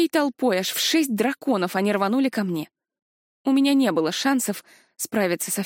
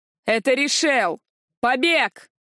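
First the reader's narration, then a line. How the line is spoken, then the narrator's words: Guard yelling. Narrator (Russian): завопил один из охранников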